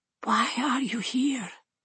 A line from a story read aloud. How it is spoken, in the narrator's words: Anna whispers